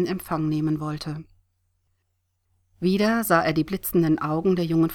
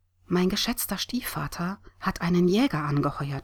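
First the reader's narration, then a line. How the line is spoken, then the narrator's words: Whispered. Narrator (German): flüsterte Sam ihrer Freundin zu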